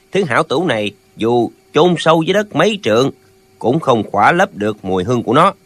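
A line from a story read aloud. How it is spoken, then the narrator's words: Smiling speech. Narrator (Vietnamese): Lệnh Hồ Xung mỉm cười nói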